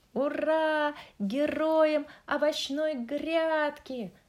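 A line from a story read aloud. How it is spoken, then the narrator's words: Shouted. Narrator (Russian): крикнула клубника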